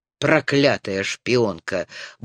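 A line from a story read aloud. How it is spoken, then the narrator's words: Muttered. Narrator (Russian): буркнул Роган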